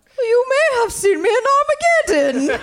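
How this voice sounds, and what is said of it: Liv Tyler impression, British-sounding. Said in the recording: “impression of Liv Tyler ... she's like got a British thing going on? ... Why is she British?”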